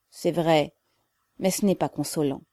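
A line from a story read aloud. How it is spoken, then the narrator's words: Sad reply. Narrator (French): répondit tristement le petit Russien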